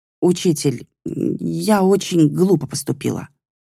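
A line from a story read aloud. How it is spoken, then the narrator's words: Halting, stammering. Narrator (Russian): проговорила она, запинаясь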